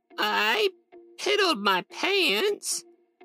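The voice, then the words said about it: Creaky old woman's voice. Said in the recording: “In a creaky voice,”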